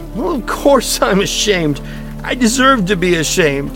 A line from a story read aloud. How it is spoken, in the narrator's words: cried Mason